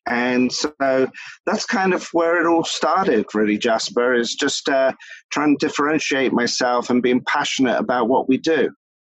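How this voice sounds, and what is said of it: Mixed Philadelphia and British accent. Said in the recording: “your accent ... It's probably a hodgepodge of Philadelphia now for 19 years, and UK, where my roots are”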